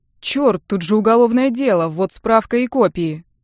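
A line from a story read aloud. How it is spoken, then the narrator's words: Brightening exclamation. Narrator (Russian): воскликнул Гущин, просветлев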